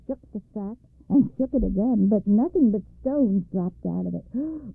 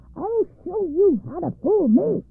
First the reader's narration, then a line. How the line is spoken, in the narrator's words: cried at the top of her voice